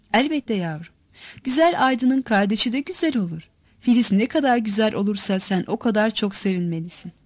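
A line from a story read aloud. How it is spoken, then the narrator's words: Laughing. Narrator (Turkish): gülerek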